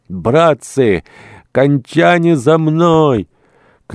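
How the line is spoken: Huge man shouting. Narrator (Russian): кричал богатырского роста рыбник

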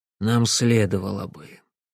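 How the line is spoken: Quiet. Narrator (Russian): тихо проговорил он

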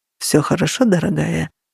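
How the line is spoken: Murmur. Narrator (Russian): пробормотал он

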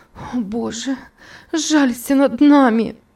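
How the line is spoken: Sobbing exclamation. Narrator (Russian): воскликнула Элиза, рыдая

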